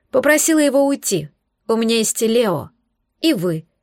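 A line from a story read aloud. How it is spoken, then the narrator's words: Sad, smiling. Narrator (Russian): ответила, грустно улыбнувшись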